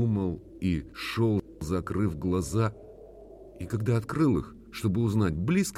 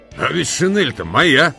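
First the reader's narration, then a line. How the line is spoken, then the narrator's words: Thunderous voice. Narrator (Russian): сказал один из них громовым голосом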